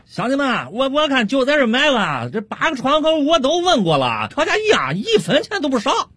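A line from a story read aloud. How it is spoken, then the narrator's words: Loud shouting. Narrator (Chinese): 王老汉 大声喊道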